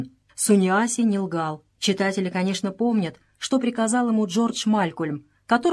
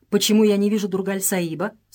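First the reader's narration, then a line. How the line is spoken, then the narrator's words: Plain. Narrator (Russian): спросила Джелла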